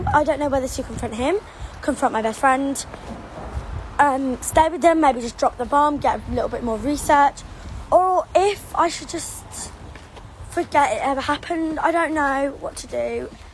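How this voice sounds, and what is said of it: Young girl's cute accent. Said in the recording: “her accent. So cute. ... She's got such a cute little accent”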